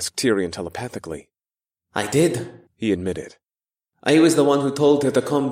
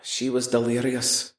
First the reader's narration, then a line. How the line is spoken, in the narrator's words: Tyrion sighed